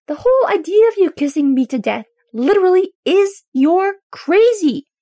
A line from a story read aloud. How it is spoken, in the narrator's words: Derek yells back, unable to stop himself from doing it